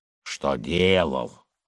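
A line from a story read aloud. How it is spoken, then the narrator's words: Grumbling. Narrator (Russian): заворчал Николай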